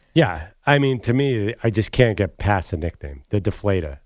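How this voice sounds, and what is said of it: Usual voice. Nothing is said of it.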